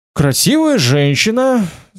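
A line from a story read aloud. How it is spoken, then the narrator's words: Mournful sigh. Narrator (Russian): сказал и скорбно вздохнул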